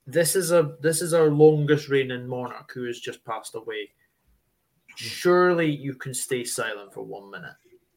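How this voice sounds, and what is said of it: Broad Scottish accent. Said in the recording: “you're Scottish ... it's there. It's very broad.”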